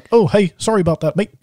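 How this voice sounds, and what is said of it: Put-on accent, not Canadian. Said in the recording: “that's not Canadian accent whatsoever”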